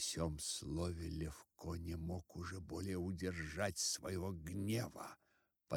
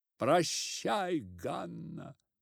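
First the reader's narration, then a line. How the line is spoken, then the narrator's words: Young man shouting. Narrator (Russian): закричал в это время один из парубков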